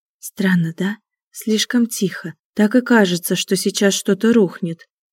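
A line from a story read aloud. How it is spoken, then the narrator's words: Whisper. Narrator (Russian): прошептала Аня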